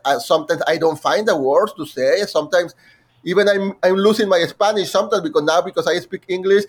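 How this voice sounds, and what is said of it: Non-native English accent. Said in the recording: “as you can hear, I have an accent.”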